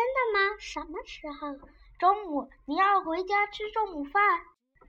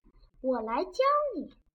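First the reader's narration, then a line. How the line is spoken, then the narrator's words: Quiet. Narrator (Chinese): 汤姆小声道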